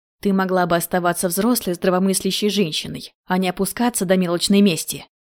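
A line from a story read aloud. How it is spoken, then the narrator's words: Snarling. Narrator (Russian): Рыкнули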